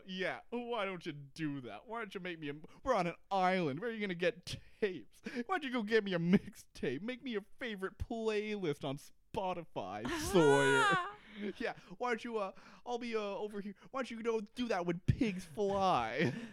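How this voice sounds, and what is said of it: Emotional impression of a TV character. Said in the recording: “That was a good Kate impression. That sort of sounds exactly like her. ... there was all the emotion”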